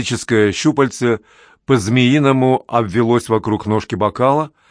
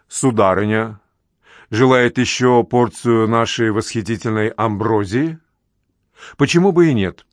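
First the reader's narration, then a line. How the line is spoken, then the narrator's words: Deep, heartfelt voice. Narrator (Russian): произнес глубоким проникновенным голосом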